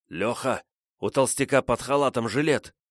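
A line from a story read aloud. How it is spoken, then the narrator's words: Hissed. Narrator (Russian): зашипел Ванька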